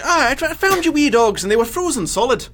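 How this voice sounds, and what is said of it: Poor attempt at Irish accent. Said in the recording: “say this one person was Irish ... That's not even close to Irish.”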